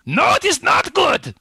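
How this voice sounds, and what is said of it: Exaggerated German accent. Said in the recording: “that terrible German accent”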